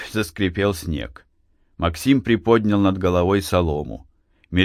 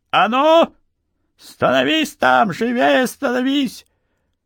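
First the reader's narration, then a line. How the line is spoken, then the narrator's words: Shrill voice. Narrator (Russian): раздался визгливый голос прапорщика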